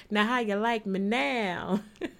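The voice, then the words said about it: Cool moody voice. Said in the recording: “In my cool moody voice.”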